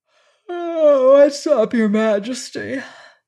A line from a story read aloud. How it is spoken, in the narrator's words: he asked with a wide yawn, for he had just wakened